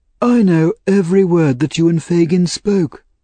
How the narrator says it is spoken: cried the old gentleman

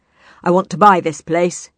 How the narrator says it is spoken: bellowed

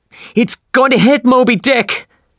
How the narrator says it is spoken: we shouted

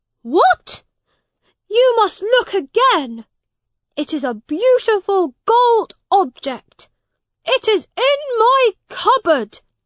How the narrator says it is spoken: shouted Edward

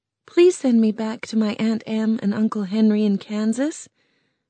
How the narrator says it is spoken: Dorothy said quickly

